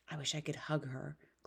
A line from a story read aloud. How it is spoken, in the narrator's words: whispered